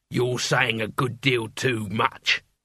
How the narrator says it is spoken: growled the leader

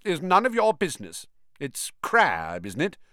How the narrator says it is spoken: said stiffly

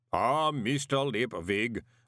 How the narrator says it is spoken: boomed the voice of Mr

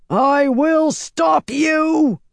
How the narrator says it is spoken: Rand roared

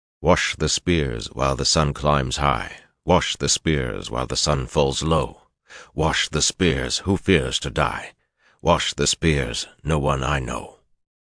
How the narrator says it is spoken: the Aielman threw back his head and began to sing in a deep, clear voice

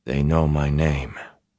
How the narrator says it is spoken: Perrin said softly

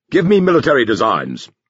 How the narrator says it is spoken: he ordered sharply

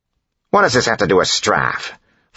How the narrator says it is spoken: Phylon snapped

